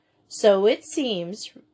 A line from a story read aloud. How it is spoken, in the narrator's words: returned Miss Maynard dryly